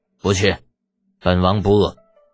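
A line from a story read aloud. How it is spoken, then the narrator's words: Cool, indifferent. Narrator (Chinese): 李元景淡淡的回道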